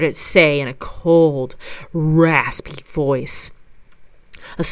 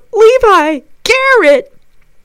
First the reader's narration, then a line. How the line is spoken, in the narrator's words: screams